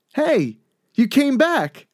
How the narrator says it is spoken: Martin exclaims

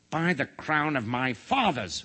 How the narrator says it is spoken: roared the king

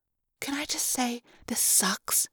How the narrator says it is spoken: I muttered

